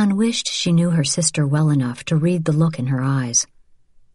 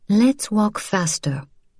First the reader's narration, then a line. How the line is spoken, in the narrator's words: said evenly